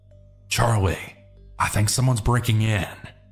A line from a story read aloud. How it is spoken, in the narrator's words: quietly whispered